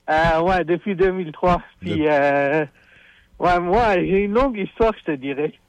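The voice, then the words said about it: Foreign accent in French. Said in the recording (French): “de par ton accent, je dénote que t'es probablement pas né ici ... un accent d'importé”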